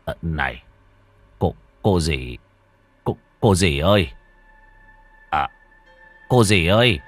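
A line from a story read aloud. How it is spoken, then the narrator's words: Trembling old man whispering. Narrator (Vietnamese): Lão run run khẽ lay lay người nằm bên cạnh, miệng thì thào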